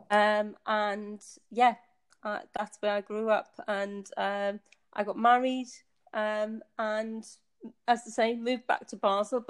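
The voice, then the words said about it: Northeast English accent. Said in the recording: “you can maybe be able to tell from my accent. I was born in the northeast of England.”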